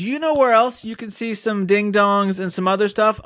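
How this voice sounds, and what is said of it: Attempted Louisiana accent. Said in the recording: “That's the best I got for a, a Louisiana accent ... that was okay ... Sounds the more bayou? like it sounds more like Sling Blade”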